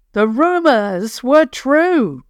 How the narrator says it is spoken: he called out to his men

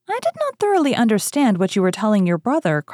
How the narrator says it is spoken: cried Emma

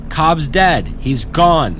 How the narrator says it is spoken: Jack yelled again

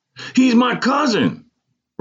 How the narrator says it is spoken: Ronald yelled again with apparent pride

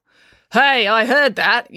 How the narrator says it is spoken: yelled Constable Pike from the driver's seat

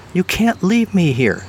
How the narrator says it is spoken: Debbie said, ponytail quivering indignantly

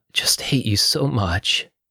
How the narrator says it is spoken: sobbed Teresa

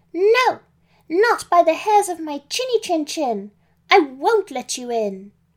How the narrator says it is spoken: Pam shouted back

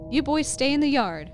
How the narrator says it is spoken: Uncle Rick shouted authoritatively

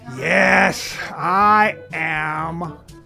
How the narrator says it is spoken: The man finally responded in an irritated voice

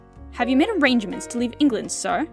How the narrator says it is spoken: Lomas said sharply

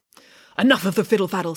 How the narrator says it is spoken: snapped Wendy

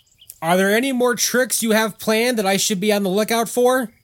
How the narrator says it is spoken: Jack yelled out

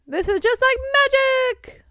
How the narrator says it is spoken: Lockhart exclaimed

